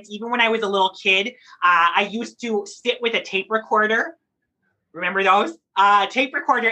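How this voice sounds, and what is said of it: Muddled, inconsistent put-on accent. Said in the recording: “it's a very muddled accent. It's inconsistent because it's part of playing pretend.”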